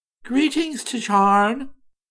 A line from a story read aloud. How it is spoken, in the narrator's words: exclaimed in a pleased and kindly tone